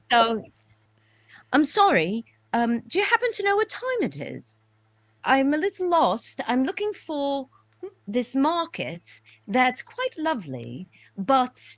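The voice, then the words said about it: Put-on British accent. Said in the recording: “strictly a British accent. So all right, let me try. I apologize ... I apologize to all of your British listeners.”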